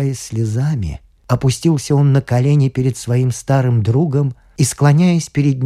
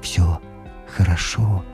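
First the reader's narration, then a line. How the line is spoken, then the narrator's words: Soft whisper. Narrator (Russian): тихо прошептал он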